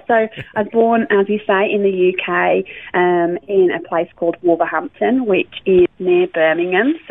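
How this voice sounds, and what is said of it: English accent, not Australian. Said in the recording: “you'll tell from my accent that I'm not a local from Australia”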